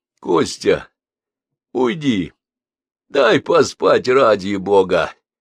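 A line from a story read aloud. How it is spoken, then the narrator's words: Groan. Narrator (Russian): простонал Петр Алексеевич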